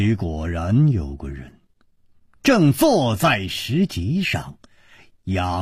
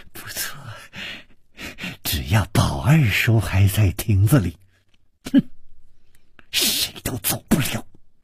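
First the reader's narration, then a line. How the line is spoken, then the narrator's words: Malicious smile. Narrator (Chinese): 施少奶奶的嘴角也泛起了一丝恶意的微笑，说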